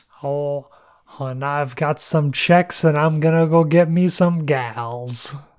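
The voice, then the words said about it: Snarky 70s-80s sleazy guy voice. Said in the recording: “read as like a 70s or 80s like douche ... the voice ... it's snarky”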